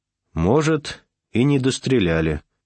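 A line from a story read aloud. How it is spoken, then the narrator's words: Calm. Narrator (Russian): спокойно сказал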